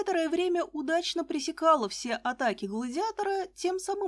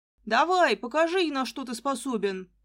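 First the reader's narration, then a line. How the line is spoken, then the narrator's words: Booming. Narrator (Russian): прогремел он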